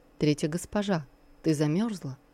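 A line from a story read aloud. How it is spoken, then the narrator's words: Quiet question. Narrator (Russian): тихо спросил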